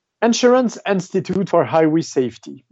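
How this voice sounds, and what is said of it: Showy put-on English accent. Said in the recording (French): “avec mon plus bel accent”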